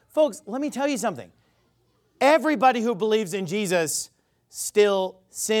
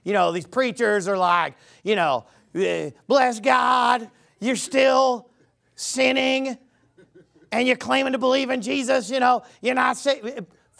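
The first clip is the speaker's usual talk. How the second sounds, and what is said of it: Put-on Southern preacher accent. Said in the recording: “I always do a Southern accent when I impersonate false gospel”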